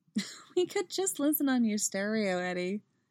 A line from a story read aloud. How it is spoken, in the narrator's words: she laughs